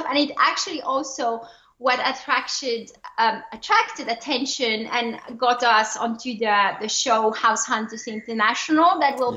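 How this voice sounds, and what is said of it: French accent in English. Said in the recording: “a little French accent in the when you speak English ... my accent”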